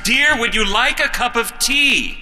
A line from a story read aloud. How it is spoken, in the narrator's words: said in an even louder voice